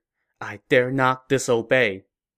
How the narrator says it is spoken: Cornered, Cao Mao muttered

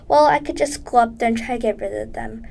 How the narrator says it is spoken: her mother said

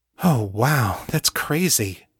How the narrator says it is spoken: Kate said, in a wondering voice

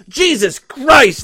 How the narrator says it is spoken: the doctor cried

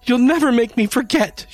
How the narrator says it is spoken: she screeched

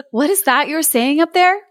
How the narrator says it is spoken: cried Gerda

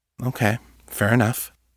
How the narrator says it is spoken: he said softly

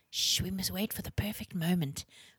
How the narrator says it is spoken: whispered Wren to Libby

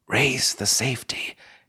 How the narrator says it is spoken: gasped Rhonda

